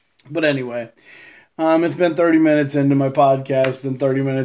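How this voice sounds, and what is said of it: Usual voice. Nothing is said of it.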